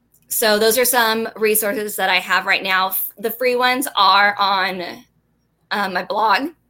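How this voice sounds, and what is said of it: Shaky, nervous voice. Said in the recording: “My voice gets really shaky.”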